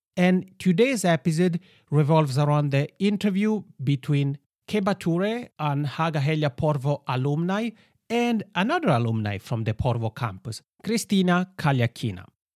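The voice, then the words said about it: Italian-accented English. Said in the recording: “my funny macaroni accent”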